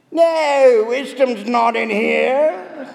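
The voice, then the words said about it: Put-on chimney sweep accent. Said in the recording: “I'm not even sure what accent I was trying to do there. I think it was sounded like a chimney sweep or something”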